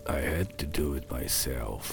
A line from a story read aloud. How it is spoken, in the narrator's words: he muttered under his breath